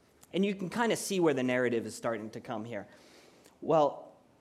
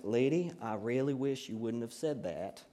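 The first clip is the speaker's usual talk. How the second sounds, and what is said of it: Put-on Southern accent. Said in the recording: “That's my Southern accent.”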